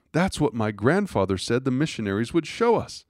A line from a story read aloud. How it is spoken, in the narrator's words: Madeline, face flushed and eyes aglow, exclaiming with elation